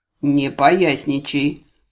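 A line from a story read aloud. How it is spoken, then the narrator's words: Stern father's rebuke. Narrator (Russian): Строго отдернул меня отец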